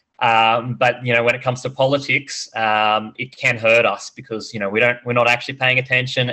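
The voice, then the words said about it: Australian accent. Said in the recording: “joining us from Australia, in case you couldn't tell by the accent.”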